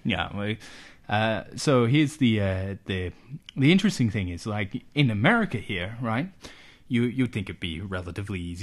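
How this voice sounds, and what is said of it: Put-on American accent. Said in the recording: “I don't know why I'm still doing an American accent slide ... It's a bit weird.”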